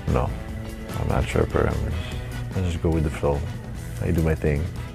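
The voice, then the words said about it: Speaks with a noticeable accent. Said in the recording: “with my accent”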